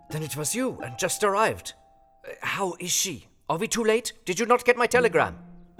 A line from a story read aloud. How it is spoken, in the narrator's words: he gasped out